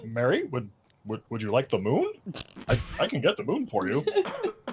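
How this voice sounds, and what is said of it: Odd impression of a character's voice. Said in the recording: “impersonation ... I said it sounded like Obama. ... It was the weirdest impression.”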